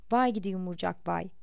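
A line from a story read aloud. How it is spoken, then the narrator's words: Grumbled. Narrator (Turkish): diye homurdandı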